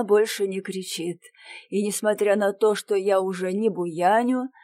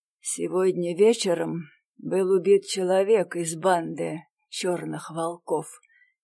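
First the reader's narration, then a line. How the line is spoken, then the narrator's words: Barely audible. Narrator (Russian): говорю я едва слышно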